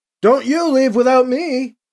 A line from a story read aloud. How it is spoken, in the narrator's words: he shouts back to Drex